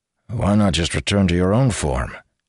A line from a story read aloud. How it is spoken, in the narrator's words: Malshash sighed